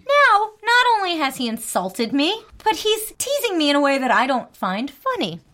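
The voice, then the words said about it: Slight New Jersey accent. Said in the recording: “I realize I'm from New Jersey. I have a little accent sometimes ... especially when I'm talking about coffee”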